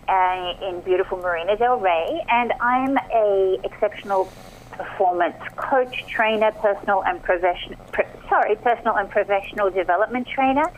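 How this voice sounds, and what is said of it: Australian accent. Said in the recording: “as you can probably hear from my accent, Aussie born and bred”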